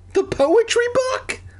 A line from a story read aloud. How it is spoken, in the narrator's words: I cried